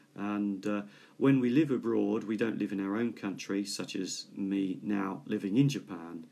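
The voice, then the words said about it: British English accent. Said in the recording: “from my accent, I speak British English because I'm from Britain”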